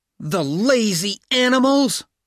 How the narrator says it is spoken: shouted Hal

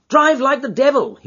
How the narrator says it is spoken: shouted

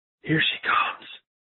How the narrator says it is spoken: Van Helsing suddenly whispered

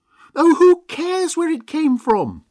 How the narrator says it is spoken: screamed Mavis, as the wolf came a few steps further into the room

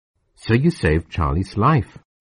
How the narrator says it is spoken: I said

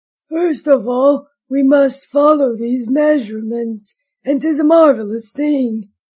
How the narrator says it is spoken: he croaked, after a little pause

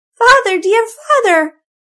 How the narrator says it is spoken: cried little Marigold, who was a very affectionate child

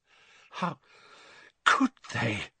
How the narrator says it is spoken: she choked

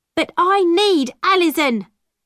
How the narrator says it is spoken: my mother shouted angrily from the door

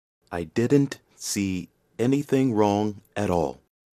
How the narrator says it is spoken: he said at last, slowly

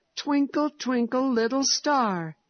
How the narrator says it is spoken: he cried in delight

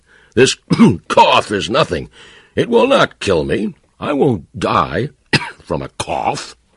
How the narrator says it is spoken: he cried

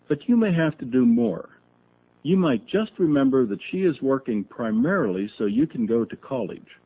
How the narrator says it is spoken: Dad said evenly

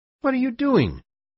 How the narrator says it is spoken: shouted

